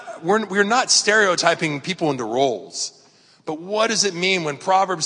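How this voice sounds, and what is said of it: Usual voice. Nothing is said of it.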